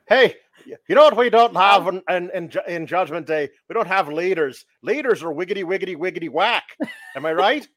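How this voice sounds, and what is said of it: Imitates another person's accent. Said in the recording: “His little accent, I was dying ... nailed it”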